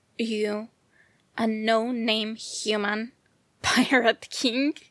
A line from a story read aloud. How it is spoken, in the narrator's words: Arlong laughed loudly, mockery echoing of the walls